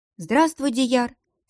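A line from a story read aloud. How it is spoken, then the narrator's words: Calm greeting. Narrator (Russian): спокойно поздоровалась она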